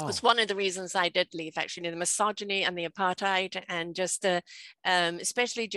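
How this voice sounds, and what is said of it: British accent with South African rhythm. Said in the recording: “I'm hearing an accent, obviously ... it's a mixture of accents ... British born ... you're hearing a little bit of South African accent. And that's where the rhythm comes from.”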